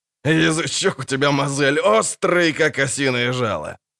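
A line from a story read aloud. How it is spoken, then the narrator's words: Guffawing laughter. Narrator (Russian): Снова захохотал Ярпин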